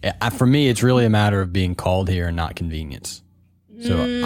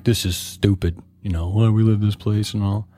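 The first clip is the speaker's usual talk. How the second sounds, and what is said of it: Imitates another person's voice. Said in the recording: “It sounds like him. That was a good imitation.”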